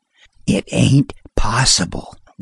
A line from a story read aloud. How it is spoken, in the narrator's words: whispered Buck Daniels